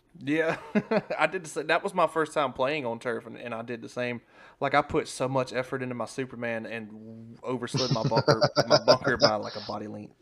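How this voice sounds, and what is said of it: Slurred speech. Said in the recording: “I'm slurring my words, so I know it's time to get off.”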